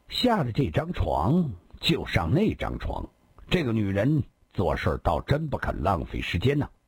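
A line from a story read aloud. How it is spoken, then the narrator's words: Cold sneering. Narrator (Chinese): 他冷冷笑了笑，冷冷地接着说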